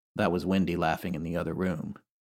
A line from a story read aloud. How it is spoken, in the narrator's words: Jim calmly say